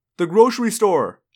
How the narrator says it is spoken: Jake yelled

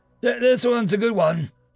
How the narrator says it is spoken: he called out, trying to be helpful

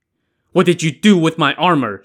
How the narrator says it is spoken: Xu Ning barked

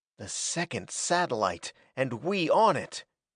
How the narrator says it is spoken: Hackett whispered incredulously

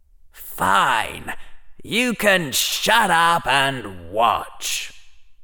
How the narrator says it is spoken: the part of him that didn't enjoy losing replied, in a very cold voice

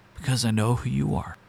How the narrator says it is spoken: With a trembling voice, I managed to whisper

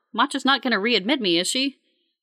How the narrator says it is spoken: Tomas chuckles

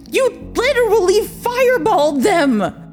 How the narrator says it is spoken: Robert shrieked

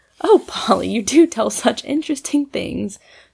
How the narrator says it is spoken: sighed Maud

